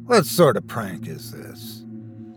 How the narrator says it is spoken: muttering

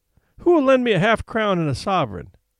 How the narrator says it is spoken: she cried

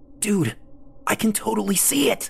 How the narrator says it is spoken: Lee hissed

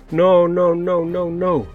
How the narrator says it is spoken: wailed Rob

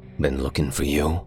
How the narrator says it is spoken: he said after a moment, his voice all edges and canyons

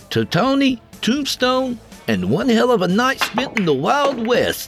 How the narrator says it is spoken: Dale said in a joyful tone in direct opposition to his best friend's mopey monotone

